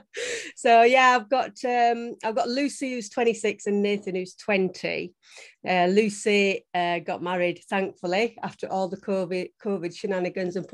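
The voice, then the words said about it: South Yorkshire accent. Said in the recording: “I'm originally from a little place called Grimethorpe in near Barnsley in South Yorkshire... You wouldn't think with the accent... Clinging on to it... You just can't get rid of that... proud to be a Yorkshire lass”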